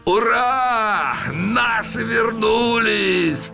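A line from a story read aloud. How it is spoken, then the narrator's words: Booming shout. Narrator (Russian): Зычно крикнул вслед офицерам один из них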